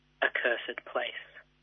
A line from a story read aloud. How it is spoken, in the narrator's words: whispers